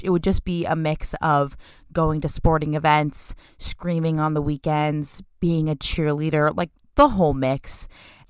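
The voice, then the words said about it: Raspy voice. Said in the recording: “My voice sounds extra raspy today.”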